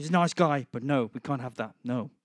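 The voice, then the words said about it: Imitates another person's voice, badly. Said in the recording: “That's my really bad impression of Trump.”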